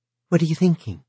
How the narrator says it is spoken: Miss Wirt asked brightly

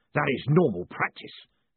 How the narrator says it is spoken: snapped Gilt

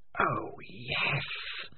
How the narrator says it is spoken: whispered the voice of Spider

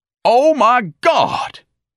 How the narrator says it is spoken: He bellowed

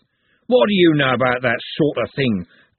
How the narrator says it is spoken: growled Andy

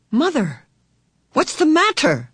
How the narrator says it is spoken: Meg cried

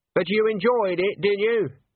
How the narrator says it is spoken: She called out

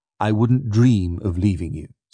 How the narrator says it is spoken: says

